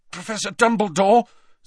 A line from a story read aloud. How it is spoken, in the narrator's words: said Harry, his voice strained